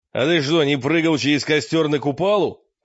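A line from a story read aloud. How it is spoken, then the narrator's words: Furious shout. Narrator (Russian): крикнул Мрак яростно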